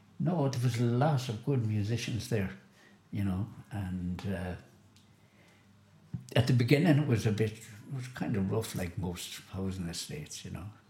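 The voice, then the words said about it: Local Galway Chantal accent. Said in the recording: “There's a Chantal accent, there's a Clad accent. ... I've the Chantal one”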